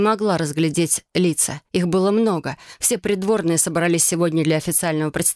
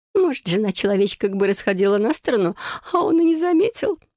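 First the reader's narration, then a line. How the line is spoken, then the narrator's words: Giggling. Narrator (Russian): хихикнул кто-то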